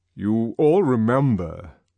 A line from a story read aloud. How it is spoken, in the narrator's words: said the controller in his strong, deep voice